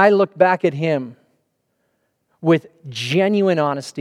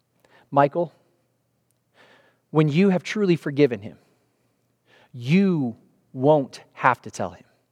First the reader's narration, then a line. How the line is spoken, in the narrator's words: he gently said